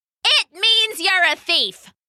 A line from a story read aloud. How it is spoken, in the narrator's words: someone shouted back